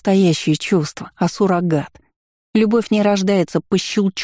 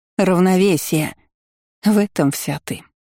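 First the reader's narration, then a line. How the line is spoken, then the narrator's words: Weary. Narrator (Russian): устало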